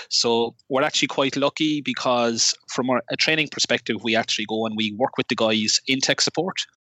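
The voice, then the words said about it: Irish Cork accent. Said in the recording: “you got a really interesting accent ... I'm from Cork, Ireland”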